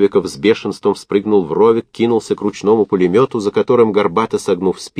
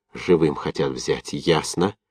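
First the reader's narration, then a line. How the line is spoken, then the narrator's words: Through gritted teeth. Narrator (Russian): сквозь зубы сказал разведчик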